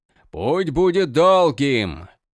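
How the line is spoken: Shout. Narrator (Russian): прокричал Крас

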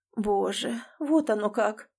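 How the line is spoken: Mother muttering. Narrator (Russian): бормочет мать

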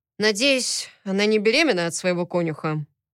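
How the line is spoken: Gloomy question. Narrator (Russian): мрачно спросил я

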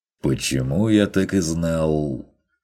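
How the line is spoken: Snort, then louder, firmer. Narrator (Russian): хмыкнул Ван Ален, и тут повысил голос, заговорив чуть тверже

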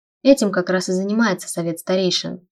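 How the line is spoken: Mumbling with full mouth. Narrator (Russian): с набитым ртом пробормотал Вейлор

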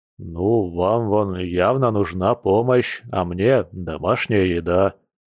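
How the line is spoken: Deep bass voice. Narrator (Russian): пробасил Борис

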